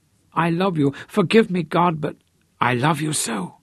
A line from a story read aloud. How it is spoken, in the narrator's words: his voice shook wildly